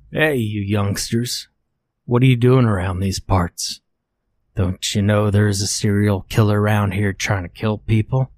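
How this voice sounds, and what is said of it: Thick Canadian accent. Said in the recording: “he called out to us in his thick Canadian accent”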